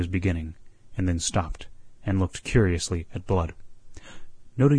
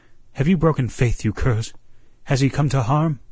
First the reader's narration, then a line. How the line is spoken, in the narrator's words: he cried